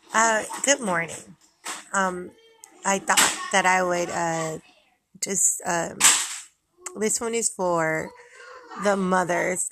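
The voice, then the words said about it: Raspy just-woke-up voice. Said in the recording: “I just woke up. So excuse my raspy. I was going to say excuse my raspy voice ... I think I always have a raspy voice”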